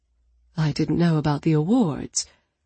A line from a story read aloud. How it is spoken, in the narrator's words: Allie murmured